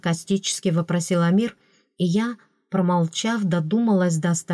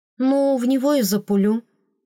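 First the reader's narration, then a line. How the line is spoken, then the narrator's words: Uncertain suggestion. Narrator (Russian): предложила неуверенно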